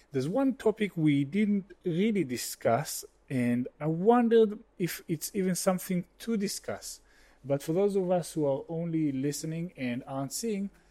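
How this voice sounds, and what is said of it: Israeli accent. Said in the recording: “my funny Israeli accent”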